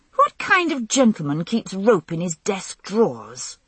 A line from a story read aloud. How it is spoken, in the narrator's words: I inquired indignantly